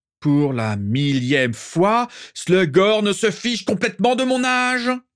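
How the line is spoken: Rising voice to shouting. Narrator (French): Régulus avait progressivement haussé la voix jusqu'à hurler

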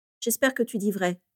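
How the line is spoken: Sighing. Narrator (French): soupira Rémus

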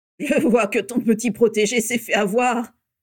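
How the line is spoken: Gruff sneering laugh. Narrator (French): ricana la voix bourrue de Rodolphus Lestrange

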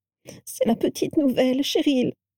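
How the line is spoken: Sobbing. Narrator (French): sanglota la première

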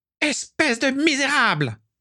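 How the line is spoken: Shouted. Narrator (French): cria Walburga

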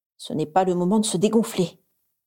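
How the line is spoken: Inner growl. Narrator (French): gronda-t-elle intérieurement

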